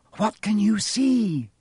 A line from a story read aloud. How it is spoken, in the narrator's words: Hermione said anxiously